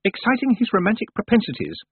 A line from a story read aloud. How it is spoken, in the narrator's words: said Miss Tick quickly